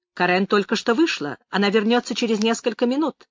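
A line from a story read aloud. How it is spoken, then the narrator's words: Rapid, crisp patter. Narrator (Russian): четко протараторила Конни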